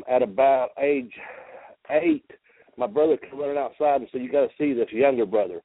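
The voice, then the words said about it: Slight Southern US accent. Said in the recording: “You can probably tell from my accent. I have a little southern accent.”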